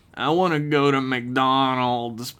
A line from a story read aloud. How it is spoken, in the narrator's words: Pavlov Flinch whined